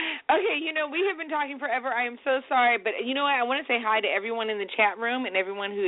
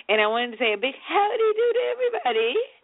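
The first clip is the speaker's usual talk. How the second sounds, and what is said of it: Fake European accent, poorly done. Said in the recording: “That was my really fake European accent. ... It didn't really come out that well”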